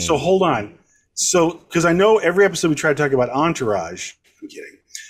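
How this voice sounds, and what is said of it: Usual voice. Nothing is said of it.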